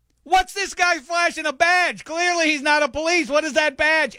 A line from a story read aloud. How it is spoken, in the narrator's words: yell